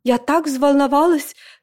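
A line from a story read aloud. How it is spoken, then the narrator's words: Sobbing. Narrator (Russian): всхлипнула Жозефин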